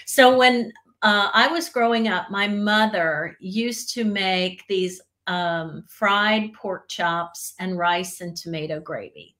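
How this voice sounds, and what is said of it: Slight Southern US accent. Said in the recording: “my mom is from the South ... My mother's side of the family is from Georgia. My dad's side of the family is from North Carolina, hence the little bit of accent that you hear in my voice.”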